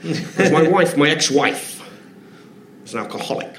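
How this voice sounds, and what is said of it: Dave Allen impression, Irish-accented. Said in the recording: “please forgive the accent”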